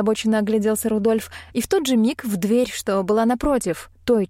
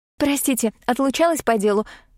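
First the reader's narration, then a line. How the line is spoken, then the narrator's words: Hurried. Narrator (Russian): сказала она, торопливо усаживаясь на стул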